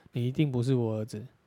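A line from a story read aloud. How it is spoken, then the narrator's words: Angry father laughing despite himself. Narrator (Chinese): 尽管父亲气得半死，最终终于还是忍不住笑道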